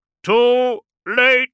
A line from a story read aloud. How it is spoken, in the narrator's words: shouted Kant